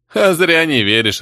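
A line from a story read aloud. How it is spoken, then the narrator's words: Laughing. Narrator (Russian): рассмеялся Майна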